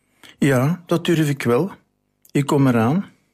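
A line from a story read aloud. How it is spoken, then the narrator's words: Calling back. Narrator (Dutch): Maarten roept terug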